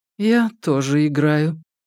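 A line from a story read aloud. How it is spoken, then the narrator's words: Soft reply. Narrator (Russian): мягко ответила Альбертина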